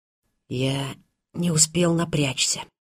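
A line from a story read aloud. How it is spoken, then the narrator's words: Whispered. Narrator (Russian): прошептал Заров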